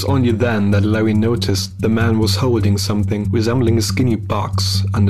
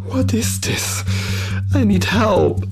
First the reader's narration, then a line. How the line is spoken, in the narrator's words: Larry pleaded one last time before he lost any energy to argue